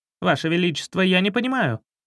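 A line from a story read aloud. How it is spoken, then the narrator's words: Cut-off speech. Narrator (Russian): начал главнокомандующий, но король резко одернул его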